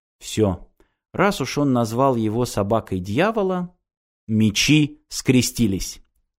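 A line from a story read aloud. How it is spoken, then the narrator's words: Quiet. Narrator (Russian): Ирина ... тихо сказала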